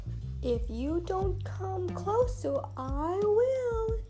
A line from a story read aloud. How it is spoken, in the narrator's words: he screeched